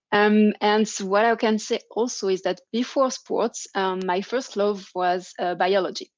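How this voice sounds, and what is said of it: French accent. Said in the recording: “as you can hear from my French accent.”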